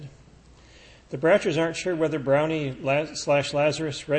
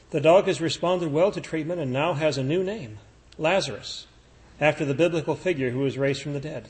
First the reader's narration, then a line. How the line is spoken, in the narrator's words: Livingston said